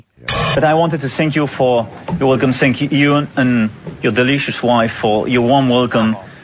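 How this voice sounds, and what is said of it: French accent. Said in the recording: “With a French accent, that is amazing.”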